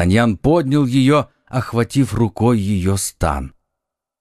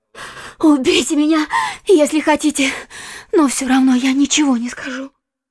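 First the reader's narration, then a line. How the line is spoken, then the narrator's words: Strangled cry. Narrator (Russian): она сдавленным голосом вскрикнула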